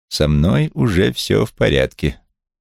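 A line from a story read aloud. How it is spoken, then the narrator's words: Completely calm. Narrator (Russian): Стелла совершенно спокойно произнесла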